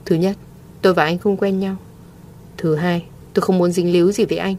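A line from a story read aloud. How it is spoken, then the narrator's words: Cold. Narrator (Vietnamese): Mộ Thiên Thanh lạnh lùng nói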